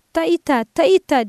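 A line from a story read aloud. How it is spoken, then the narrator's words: Starting to shout. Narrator (Turkish): diye bağırmaya başlıyordu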